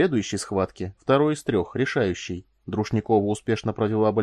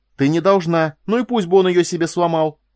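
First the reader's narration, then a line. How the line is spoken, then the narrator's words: Increasingly excited wail. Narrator (Russian): завопила Корделия, увлекаясь все больше и больше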